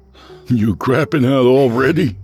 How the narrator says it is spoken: Jason laughed

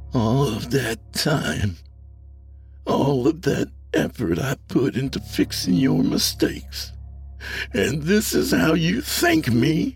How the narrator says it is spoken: his voice simmering with rage

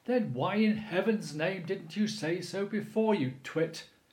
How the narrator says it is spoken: cried Mr

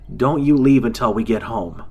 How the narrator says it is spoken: Jason shouted as we jogged

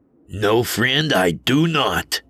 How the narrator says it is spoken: I growled back

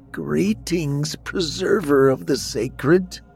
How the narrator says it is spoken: in her frail voice said

